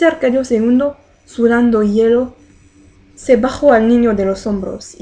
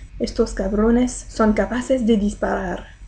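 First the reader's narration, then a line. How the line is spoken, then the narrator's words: Murmured. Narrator (Spanish): murmuró ella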